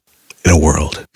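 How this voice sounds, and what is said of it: Deep movie trailer announcer voice. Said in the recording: “Can you do your voice? Your movie guy voice? ... Wow, that's good.”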